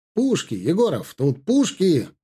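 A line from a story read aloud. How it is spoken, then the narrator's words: Exclaimed. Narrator (Russian): воскликнул Константин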